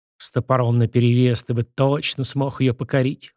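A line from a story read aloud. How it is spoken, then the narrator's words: Sighing. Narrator (Russian): вздохнула Виноградова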